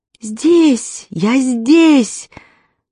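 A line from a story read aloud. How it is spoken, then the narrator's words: Silent inner shout. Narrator (Russian): безмолвно закричал я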